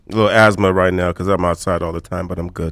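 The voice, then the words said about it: Unusually deep, husky voice. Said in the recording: “you got that deep, sultry sound in your voice today ... You got that balls deep voice today”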